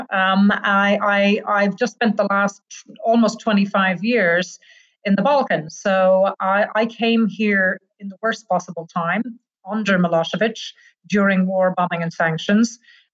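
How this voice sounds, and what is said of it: Irish accent. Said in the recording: “I'm Irish. You'll figure that out from my accent.”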